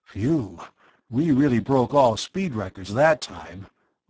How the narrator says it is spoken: Arv panted

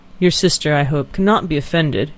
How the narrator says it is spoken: he said

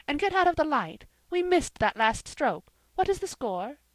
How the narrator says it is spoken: exclaimed Jane

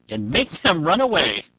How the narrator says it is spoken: said Shuri, with a laugh

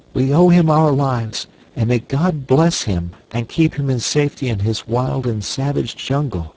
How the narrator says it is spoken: cried the girl

